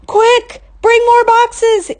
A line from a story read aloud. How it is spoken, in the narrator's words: yelled a man